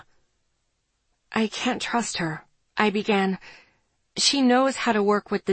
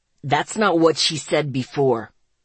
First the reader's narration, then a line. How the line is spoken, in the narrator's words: Zeke growled